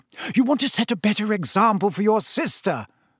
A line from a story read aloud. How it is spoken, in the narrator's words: snapped Mrs